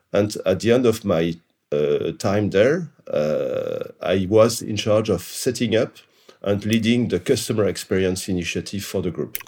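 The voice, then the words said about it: French accent. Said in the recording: “As you can hear from my accent, I'm French.”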